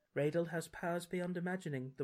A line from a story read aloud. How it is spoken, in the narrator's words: the witch says sadly